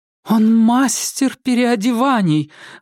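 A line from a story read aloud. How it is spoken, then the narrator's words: Exclamation. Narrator (Russian): воскликнула Клара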